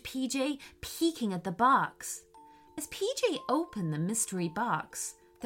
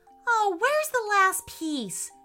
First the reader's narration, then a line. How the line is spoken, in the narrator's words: shouted PJ anxiously